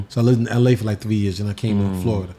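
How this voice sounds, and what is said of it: New York accent. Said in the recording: “your humor has like a New York kind of, vibe to it ... my accent does”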